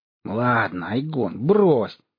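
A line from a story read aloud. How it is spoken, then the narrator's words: Irritated. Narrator (Russian): раздраженно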